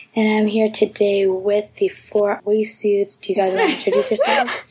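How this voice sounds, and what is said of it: Sick-sounding voice. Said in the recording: “kind of sick, so my voice sounds different”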